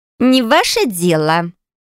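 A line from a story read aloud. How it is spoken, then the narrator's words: Young woman's scoffing snort. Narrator (Russian): хмыкнула девушка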